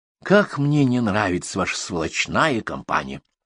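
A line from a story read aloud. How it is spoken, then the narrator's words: Commissar sighing. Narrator (Russian): вздохнул комиссар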